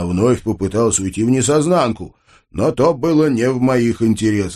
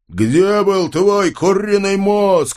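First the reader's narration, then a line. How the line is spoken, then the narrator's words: Yelling. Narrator (Russian): орал я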